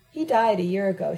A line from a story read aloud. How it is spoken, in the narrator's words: she said sadly